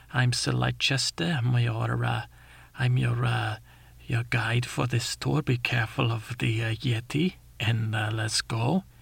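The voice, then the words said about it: Put-on accent. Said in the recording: “i put on my little accent.”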